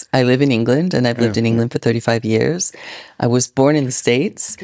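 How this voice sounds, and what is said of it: Mixed international accent, sounds Canadian. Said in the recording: “people might detect a little bit of an accent ... this is a globish accent ... a confused and displaced wherever I go accent ... Guess Canadian.”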